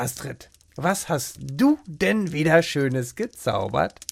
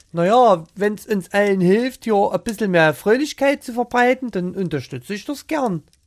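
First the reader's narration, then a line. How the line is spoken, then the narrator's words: Charming Saxon accent. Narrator (German): sagte sie mit einem sächsischen Akzent, der ihren Worten einen besonderen Charme verlieh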